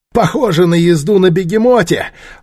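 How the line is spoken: Breathless laughter. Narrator (Russian): Он, задыхаясь, засмеялся

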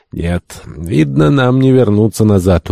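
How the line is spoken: Dejected. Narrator (Russian): уныло промолвил Полтон

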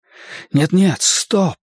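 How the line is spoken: Whisper. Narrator (Russian): прошептал я

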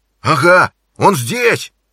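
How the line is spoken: Shouted. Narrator (Russian): закричал он

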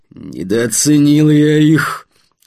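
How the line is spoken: Through gritted teeth. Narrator (Russian): сквозь зубы процедил Вадим

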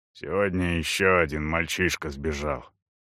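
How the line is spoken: Grumbling. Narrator (Russian): проворчал Эйс

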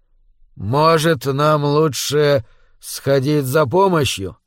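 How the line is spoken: Hesitant suggestion. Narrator (Russian): неуверенно предложил он

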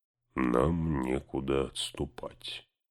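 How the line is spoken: Muttering. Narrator (Russian): пробормотал Гимли

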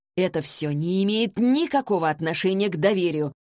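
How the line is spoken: Irritated, offended objection. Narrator (Russian): раздраженно и обиженно возразил Вик

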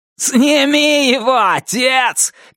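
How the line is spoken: Shout. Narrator (Russian): крикнул Туз

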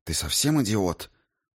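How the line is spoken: Hissing. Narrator (Russian): прошипела она

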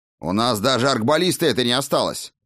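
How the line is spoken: Barked. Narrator (Russian): рявкнул тот

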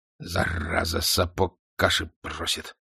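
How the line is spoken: Angry grumble. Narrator (Russian): сказал князь, сердито

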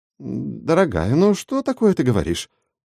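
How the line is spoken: Habitual mumble. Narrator (Russian): Привычно мямлил Кристофер

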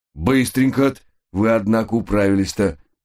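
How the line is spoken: Good-natured chuckle. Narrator (Russian): добродушно хмыкнул он

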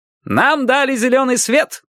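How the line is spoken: Shouting. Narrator (Russian): крикнул Лейн

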